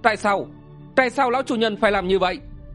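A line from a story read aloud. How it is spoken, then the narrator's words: Alarmed shouted question. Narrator (Vietnamese): Đồng Uyển Nhược biến sắc, nàng quát hỏi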